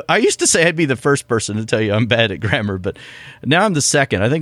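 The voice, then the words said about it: Southern American accent. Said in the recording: “your your southern accent just showed yeah. through again.”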